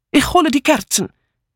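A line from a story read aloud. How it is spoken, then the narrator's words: Calling out. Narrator (German): rief Mitzi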